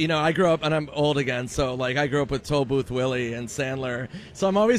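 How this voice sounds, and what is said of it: Usual voice. Nothing is said of it.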